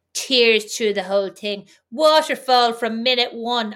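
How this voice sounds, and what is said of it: Imitates another person's voice, tight-mouthed. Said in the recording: “Your dad impression there gave him such a mean little tight mouth.”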